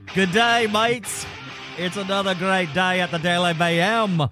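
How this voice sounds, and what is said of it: Bad put-on Australian accent. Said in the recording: “In my horrible Australian accent ... that was pretty bad ... it was passable ... talking to Steve Irwin”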